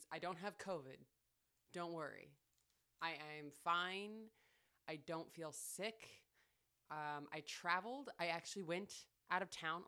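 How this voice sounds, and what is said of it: Congested, nasal voice. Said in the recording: “I sound different. ... I've got a little bit of congestion going on ... I came back all, like, nasally”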